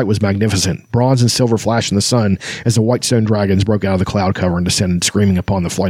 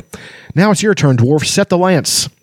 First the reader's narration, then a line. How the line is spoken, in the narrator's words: Kearsaw yelled